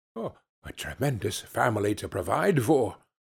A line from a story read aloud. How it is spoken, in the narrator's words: muttered Scrooge